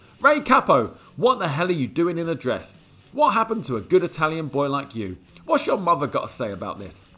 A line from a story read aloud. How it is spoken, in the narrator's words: He just yelled out